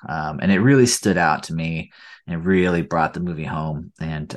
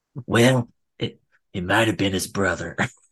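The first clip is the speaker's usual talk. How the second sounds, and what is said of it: Imitates another person's voice. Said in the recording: “my Eastwood impersonation.”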